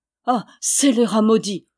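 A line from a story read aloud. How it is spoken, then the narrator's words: Exclaimed. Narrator (French): s'écria Aubry, qui avait de la sueur aux tempes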